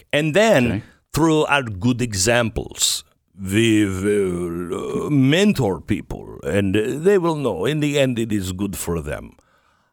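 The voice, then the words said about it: Spooky German accent. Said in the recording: “that really spooky German accent”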